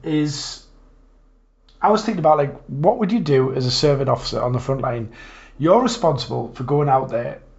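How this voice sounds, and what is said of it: Slightly hoarse, croaky voice. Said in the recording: “I've got a bit of a frog in my throat today”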